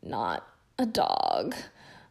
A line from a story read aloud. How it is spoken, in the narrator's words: Ron moaned